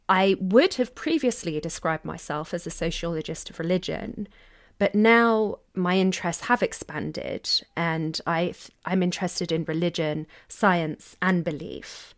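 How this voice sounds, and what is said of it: British English accent. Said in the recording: “As you might be able to tell from my accent, I'm from the UK”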